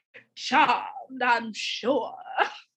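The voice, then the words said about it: Bad put-on Southern accent. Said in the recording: “that was a bad southern accent.”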